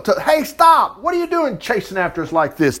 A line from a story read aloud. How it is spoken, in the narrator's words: yelling